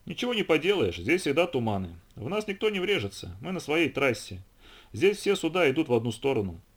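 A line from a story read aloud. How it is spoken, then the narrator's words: Plain. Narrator (Russian): ответил Хендерсон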